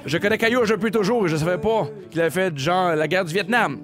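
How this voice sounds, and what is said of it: Put-on Acadian French accent. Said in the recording (French): “je viens de l'Acadie je vais faire l'accent ... Hey, bon accent. Ton accent, l'accent est malade mental”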